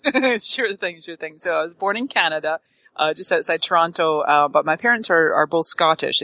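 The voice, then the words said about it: Speaks with a noticeable accent. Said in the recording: “probably the listeners can tell you have an accent”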